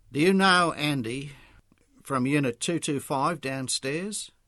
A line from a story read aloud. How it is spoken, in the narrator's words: asked wistfully